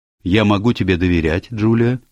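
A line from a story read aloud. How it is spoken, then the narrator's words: Plain. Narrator (Russian): спросила мисс Булстроуд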